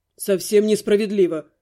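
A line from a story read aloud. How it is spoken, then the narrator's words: Calm repetition. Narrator (Russian): спокойно повторил водник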